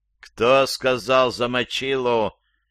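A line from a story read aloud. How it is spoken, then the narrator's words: Menacing question. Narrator (Russian): еще раз грозно спросил папа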